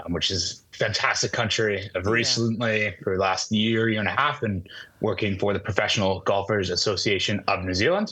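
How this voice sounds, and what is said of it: Non-New Zealand accent. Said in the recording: “a non-Kiwi accent”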